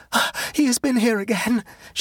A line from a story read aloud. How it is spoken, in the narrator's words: cried